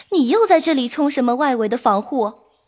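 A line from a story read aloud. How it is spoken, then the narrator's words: Laughing. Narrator (Chinese): 秋文回头见了平儿，笑道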